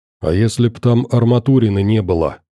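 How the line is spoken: Whisper. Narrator (Russian): шепнул доктору Макс

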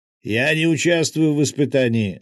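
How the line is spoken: Yelling. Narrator (Russian): заорал Салем

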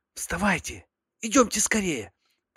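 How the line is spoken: Whisper. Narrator (Russian): прошептал

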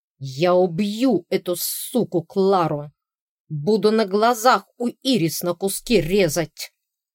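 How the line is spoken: Snarling. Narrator (Russian): зарычал Конрад

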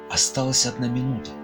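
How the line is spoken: Whispering. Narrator (Russian): Некоторые передавали шепотом друг другу

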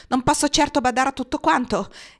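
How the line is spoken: Defensive exclamation. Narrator (Italian): esclamò sulla difensiva

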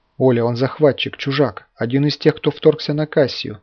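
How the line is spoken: Furious whisper. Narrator (Russian): яростным шепотом произнес Сергей

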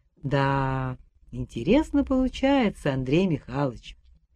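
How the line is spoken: Very calm. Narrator (Russian): начал очень спокойно Федор Семенович

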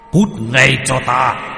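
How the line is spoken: Shout. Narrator (Vietnamese): Ông ta quát lên

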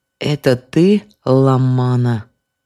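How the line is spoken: Creaky wooden voice. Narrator (Russian): проговорил он скрипучим деревянным голосом

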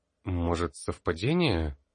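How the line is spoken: Uncertain. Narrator (Russian): неуверенно произнес Тар

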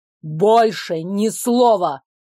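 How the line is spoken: Bark. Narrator (Russian): рявкнул герцог

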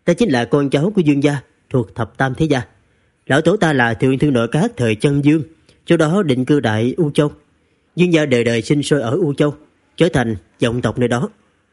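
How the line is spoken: Smiling. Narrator (Vietnamese): Dương Bật mỉm cười, nói

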